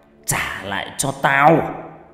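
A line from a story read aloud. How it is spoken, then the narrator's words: Harsh, strained voice. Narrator (Vietnamese): gằn giọng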